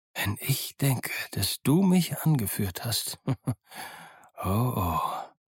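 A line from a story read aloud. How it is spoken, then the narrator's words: Muttering to himself. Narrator (German): murmelte Silver vor sich hin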